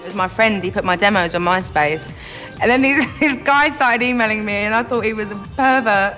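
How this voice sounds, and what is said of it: Cockney English accent. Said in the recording (Danish): “You have funny, funny accent ... I'd probably say Cockney”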